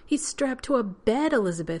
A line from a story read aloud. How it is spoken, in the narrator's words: he exclaimed, as if Carson had done it just to be cruel